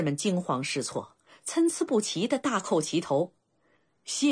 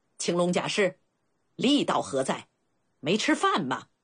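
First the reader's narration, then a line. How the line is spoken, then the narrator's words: Harsh scolding. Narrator (Chinese): 齐闵王厉声呵斥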